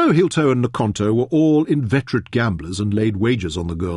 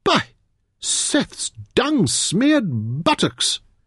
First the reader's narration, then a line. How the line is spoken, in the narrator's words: Meron exclaimed